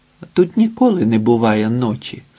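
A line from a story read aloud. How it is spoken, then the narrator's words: Plain. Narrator (Ukrainian): сказала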